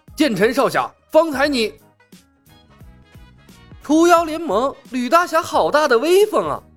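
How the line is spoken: Shouted, interrupting. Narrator (Chinese): 李牧喊了一声，截断了他的话

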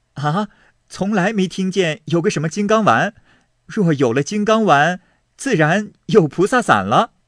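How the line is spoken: Laughing. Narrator (Chinese): 宝玉笑道

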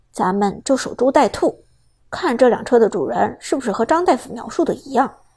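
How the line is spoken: Low voice. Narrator (Chinese): 苏哲则低声说道

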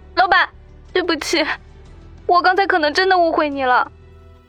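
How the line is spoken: Excited exclamation. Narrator (Chinese): 林阳心中激动万分，马上惊叫道

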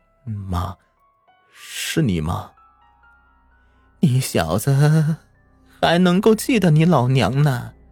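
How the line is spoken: Quiet question. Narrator (Chinese): 他低声问道

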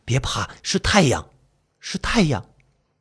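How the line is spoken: Hushed voice. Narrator (Chinese): 男人压低声音

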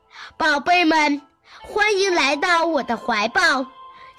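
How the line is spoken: Warm, smiling. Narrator (Chinese): 大地妈妈笑着说

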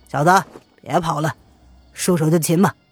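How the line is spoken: Cold, middle-aged man. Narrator (Chinese): 瘦脸黑须的中年人……冷冷的道

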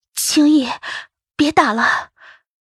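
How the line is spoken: Choked voice. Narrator (Chinese): 声音却像被堵在嗓子眼里

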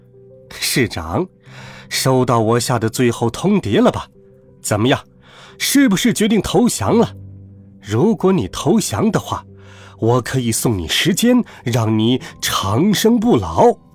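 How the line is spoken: Cheerful, giggling. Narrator (Chinese): 猴子笑嘻嘻地说

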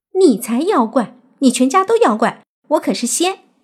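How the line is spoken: Angry girl. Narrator (Chinese): 那个女孩怒视若烟，说道

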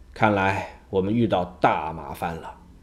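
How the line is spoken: Heavy sighing voice. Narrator (Chinese): 爱因斯坦叹了口气，沉重地说

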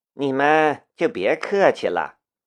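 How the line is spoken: Indifferent, flat. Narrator (Chinese): 申屠天音淡淡的道

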